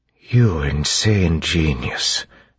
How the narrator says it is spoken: Doxen whispered

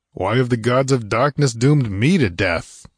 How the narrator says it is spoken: growled Conan

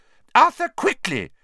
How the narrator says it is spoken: cried Mrs

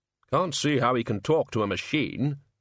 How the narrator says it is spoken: said Ridcully in a sullen voice

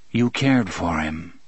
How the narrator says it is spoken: said flatly

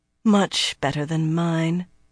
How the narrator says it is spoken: the slender woman sighed

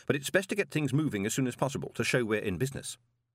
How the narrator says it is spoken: said Moist quickly

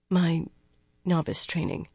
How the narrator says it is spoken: Nynaeve said faintly

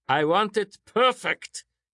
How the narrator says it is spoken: he shouted

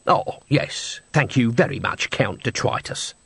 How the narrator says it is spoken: said Nobby bitterly

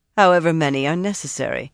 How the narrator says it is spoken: Sorrelia said dryly

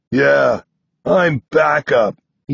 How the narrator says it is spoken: he snorts

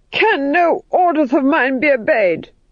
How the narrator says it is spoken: screamed

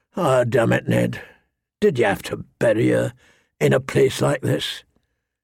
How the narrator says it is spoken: His voice was hoarse with remembered grief

